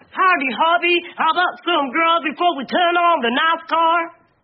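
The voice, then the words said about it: Put-on Texan American accent. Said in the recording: “Do you think that's an American accent? ... From Texas.”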